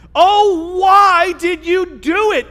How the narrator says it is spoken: They groaned

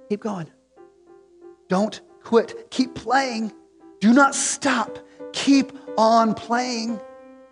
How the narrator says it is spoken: leans over and whispers to the boy

